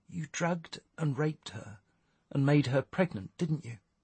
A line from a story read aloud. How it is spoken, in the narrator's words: she asked quietly